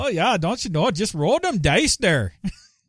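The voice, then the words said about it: Put-on Minnesota accent. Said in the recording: “the Minnesota accent impression I did in the video”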